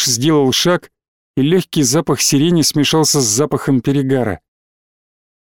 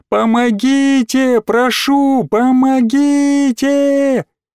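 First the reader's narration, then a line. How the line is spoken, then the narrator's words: Shouting through nausea. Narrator (Russian): закричала сквозь тошноту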